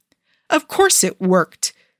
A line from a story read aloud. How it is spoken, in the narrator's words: he snaps